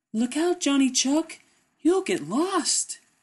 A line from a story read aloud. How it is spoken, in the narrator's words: cried the Merry Little Breeze